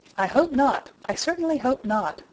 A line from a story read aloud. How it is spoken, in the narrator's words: cried Mrs